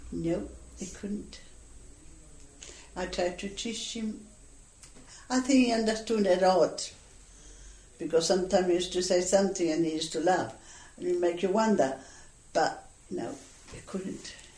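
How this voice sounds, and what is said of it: Noticeable Spanish accent. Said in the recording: “You've still got quite a Spanish accent, haven't you?”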